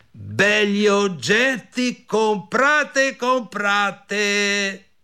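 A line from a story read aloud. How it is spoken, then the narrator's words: Shout. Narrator (Italian): gridò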